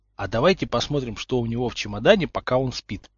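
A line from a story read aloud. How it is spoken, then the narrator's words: Whispered suggestion. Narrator (Russian): шепотом предложил Поттер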